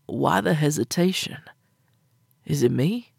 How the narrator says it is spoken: asking softly

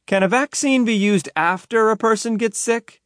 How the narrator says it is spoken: he yelled back into the classroom

